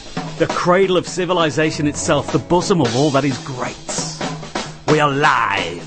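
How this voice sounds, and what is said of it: English accent. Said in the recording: “this accent is English”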